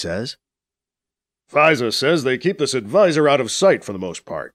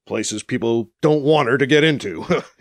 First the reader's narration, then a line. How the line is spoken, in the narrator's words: he says with a chuckle